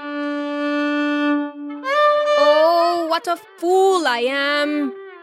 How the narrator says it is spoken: cried Abu Hassan

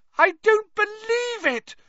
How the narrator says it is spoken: Hermione screamed

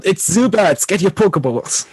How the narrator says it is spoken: Kine cries out

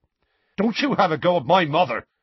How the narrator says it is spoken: Seamus snapped

